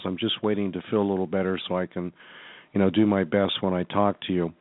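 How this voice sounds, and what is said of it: Sick-sounding voice. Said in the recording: “as you can probably tell by my voice, I'm actually not feeling the best”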